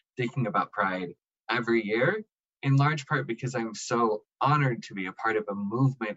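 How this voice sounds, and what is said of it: Emotional, choked-up voice. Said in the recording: “As you can probably tell from my voice, I get emotional”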